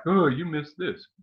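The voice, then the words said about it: Imitates listeners' voices, badly. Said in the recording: “that's a bad impression of you lovely people who are listening”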